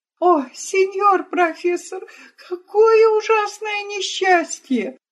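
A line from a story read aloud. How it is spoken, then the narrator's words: Sobbing. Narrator (Russian): Рыдая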